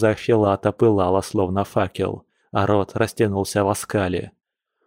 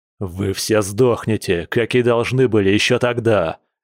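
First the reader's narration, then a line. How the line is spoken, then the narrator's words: Growling leader. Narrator (Russian): зарычал вожак огненного клана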